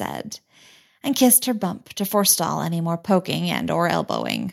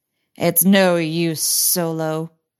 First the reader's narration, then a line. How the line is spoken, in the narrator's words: sneered the evil droidicot general